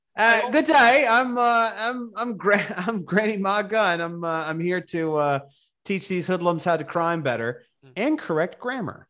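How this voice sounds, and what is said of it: Put-on Australian accent as Ma Gunn. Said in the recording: “with an Australian accent”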